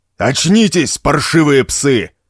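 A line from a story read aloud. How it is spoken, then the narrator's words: Roaring captain. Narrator (Russian): прорычал капитан пьяной команды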